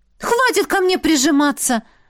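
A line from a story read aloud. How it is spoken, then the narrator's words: Forceful shout. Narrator (Russian): выкрикнула с силой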